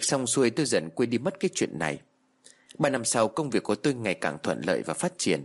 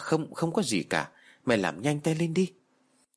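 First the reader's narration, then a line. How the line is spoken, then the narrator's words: Stammering reply. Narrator (Vietnamese): Tôi lắp bắp trả lời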